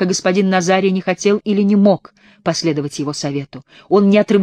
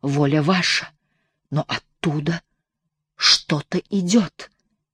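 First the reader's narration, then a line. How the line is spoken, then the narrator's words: Whispered. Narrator (Russian): прошептал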